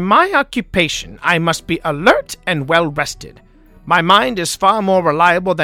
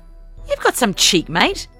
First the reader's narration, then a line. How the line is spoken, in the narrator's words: Eliza spat